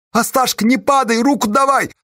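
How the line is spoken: Sobbing voice. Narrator (Russian): услышал Осташа чей-то рыдающий голос

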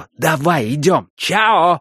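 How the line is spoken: Shout toward another room. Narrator (Russian): крикнул он в кухню

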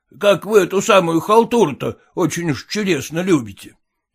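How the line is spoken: Grumbling shopkeeper. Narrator (Russian): проворчал лавочник

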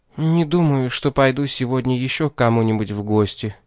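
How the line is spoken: Calm. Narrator (Russian): сказала она спокойно

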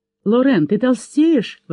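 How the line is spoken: Exclaiming to a child. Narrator (Russian): воскликнула она, обращаясь к ребенку

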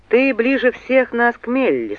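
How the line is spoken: Dry remark. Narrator (Russian): сухо заметил он

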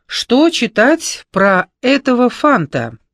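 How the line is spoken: Loud question to group. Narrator (Russian): громко спросила у общества Клава

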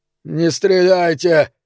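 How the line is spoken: Hoarse dry-throated plea. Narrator (Russian): хрипло попросил он, в горле у него явно пересохло

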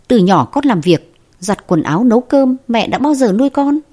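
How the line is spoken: Displeased, raised voice. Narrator (Vietnamese): Vương Mai không vui cao giọng nói

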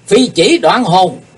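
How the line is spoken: Thunderous shout. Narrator (Vietnamese): Kiếm khách Phạm Thiên Hòa bỗng quát to tợ sấm

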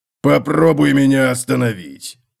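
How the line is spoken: Growled. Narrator (Russian): прорычал Готрек

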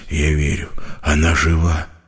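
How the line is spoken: Barely audible whisper. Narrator (Russian): едва слышно прошептал он

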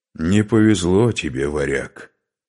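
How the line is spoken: Through gritted teeth. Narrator (Russian): процедил Скарпи

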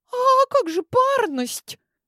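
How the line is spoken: Frightened girl asking. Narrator (Russian): испуганно спросила девушка из стайки Алинеи

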